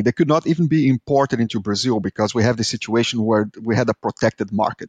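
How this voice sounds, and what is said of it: Brazilian-accented English. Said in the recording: “I am Brazilian, as you can tell by my horrible accent”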